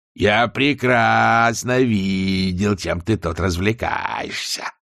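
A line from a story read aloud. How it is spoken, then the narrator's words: Growling. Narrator (Russian): рычал Шэдуэлл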